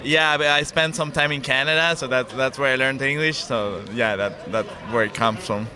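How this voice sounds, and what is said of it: English with slight American twang. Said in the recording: “You've got a little American twang there as well in your English accent.”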